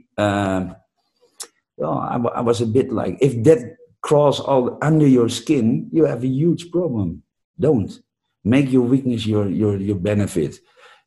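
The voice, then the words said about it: Non-native English accent. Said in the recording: “mostly American or English native speakers ... The guy with the funky accent ... Funky accent”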